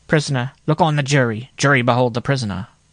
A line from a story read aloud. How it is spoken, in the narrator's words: cried the clerk mechanically